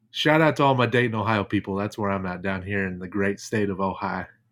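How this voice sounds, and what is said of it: Southern Ohio accent. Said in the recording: “That's said like a Southern Ohio person there too... the accent will sneak out every once in a while”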